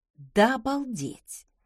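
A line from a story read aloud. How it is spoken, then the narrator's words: Muttering. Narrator (Russian): пробормотала я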